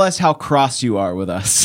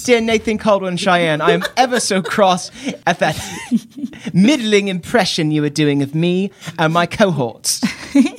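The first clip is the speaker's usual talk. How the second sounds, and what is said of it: Put-on British child's accent. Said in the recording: “A British children's accent. ... That's the only British accent we know how to do is a British child's accent.”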